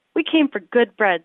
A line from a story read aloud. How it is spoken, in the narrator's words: they cried